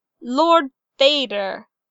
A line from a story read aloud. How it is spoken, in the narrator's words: Emperor Palpatine snapped